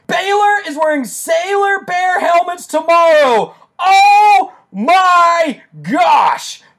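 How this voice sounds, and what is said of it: Excited screaming into microphone. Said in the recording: “I'm sorry I'm screaming into the microphone”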